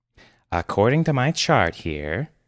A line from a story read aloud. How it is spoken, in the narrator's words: she said sweetly